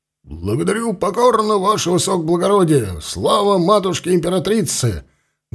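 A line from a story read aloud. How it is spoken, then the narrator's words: Full-throated bark. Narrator (Russian): Гаркнул во все горло егерь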